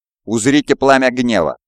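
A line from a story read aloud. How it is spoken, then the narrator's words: Angry. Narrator (Russian): злобно произнес Кирис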